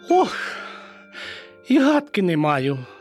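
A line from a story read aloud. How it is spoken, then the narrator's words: Sorrowful sigh. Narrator (Ukrainian): скрушно зітхнула Мишка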